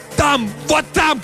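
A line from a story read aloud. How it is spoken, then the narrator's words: Excited shouting. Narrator (Russian): кричал Картер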